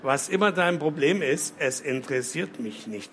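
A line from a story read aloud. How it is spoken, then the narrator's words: Plain. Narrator (German): sagte sie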